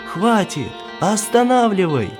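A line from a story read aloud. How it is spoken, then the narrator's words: Shout. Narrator (Russian): крикнул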